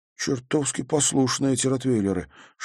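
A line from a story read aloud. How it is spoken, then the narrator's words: Whisper. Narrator (Russian): шепнул Халварсон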